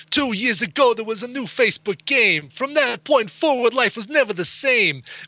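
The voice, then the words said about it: Rap-style delivery. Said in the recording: “in my best rap voice”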